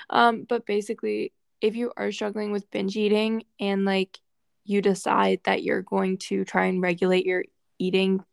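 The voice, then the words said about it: Slightly weird, sick-sounding voice. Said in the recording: “my voice sounds a little weird. I'm feeling a little sick today ... that little voice change”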